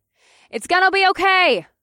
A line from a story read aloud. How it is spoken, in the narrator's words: I shouted to the workers, but I wasn't sure that they could hear me over the sound of the sirens below and the wind all around us